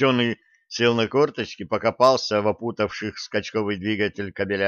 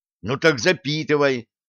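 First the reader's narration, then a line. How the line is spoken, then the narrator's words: Irritated bark. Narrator (Russian): раздраженно рявкнул Блат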